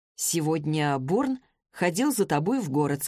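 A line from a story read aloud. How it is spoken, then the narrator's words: Plain. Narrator (Russian): сказал он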